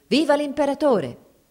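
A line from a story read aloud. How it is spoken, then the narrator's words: Escort shouting at full voice. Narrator (Italian): la scorta gridò a squarciagola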